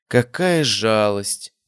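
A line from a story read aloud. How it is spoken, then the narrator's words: Cold predatory drawl. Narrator (Russian): протянула Изабель, и ее голос утратил печальные интонации, став холодным и хищным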